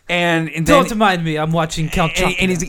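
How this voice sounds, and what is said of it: Kooky vampire character accent. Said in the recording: “he's got to do a kooky accent”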